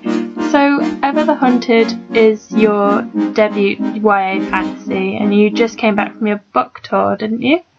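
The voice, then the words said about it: Birmingham-area English accent. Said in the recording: “I'm not far from Birmingham... I have an awful accent... really harsh and”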